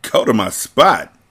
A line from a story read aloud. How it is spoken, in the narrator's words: Zaire scoffed